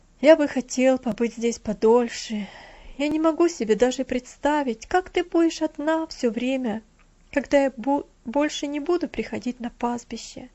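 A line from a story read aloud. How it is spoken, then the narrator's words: Sad. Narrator (Russian): печально проговорил Винзи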